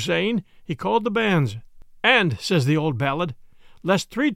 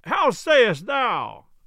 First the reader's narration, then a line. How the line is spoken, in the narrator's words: roared Tuck from the choir loft